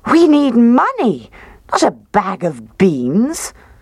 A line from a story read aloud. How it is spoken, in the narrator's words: she cried